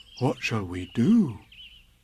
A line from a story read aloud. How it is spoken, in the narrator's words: said Pooh solemnly